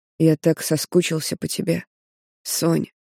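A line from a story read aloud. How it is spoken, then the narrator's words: Hoarse voice. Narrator (Russian): говорит хрипло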